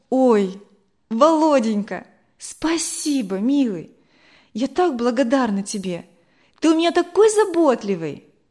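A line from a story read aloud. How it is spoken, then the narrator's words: Joyful exclamation. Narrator (Russian): воскликнула Вера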